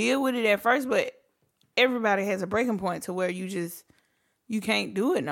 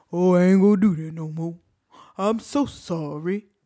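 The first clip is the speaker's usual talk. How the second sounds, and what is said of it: Put-on stereotyped character voice. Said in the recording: “Why are you using the slave voice? ... you doing the slave voice.”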